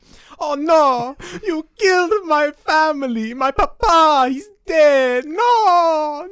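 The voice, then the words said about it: Bad exaggerated Italian accent. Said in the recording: “a really bad like Italian one ... I just do like a Ezio Auditore impression ... That sounds like Mario impression.”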